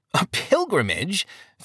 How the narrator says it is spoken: Facing Both Ways scoffed

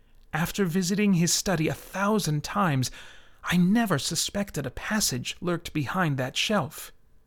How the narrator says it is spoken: Dicerin whispered

